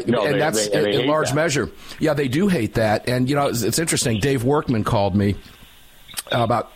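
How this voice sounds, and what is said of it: Usual voice. Nothing is said of it.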